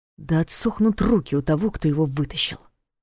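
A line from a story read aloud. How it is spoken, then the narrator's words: Through gritted teeth. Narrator (Russian): Сквозь зубы процедил Ваня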